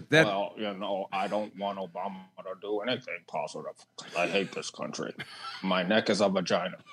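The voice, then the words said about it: Imitates another person's voice. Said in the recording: “you just did it perfectly, and you've never done impressions ... do an impression of Mitch McConnell”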